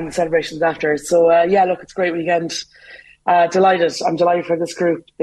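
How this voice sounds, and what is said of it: Hoarse voice. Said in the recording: “I'm a little bit hoarse from shouting during the match.”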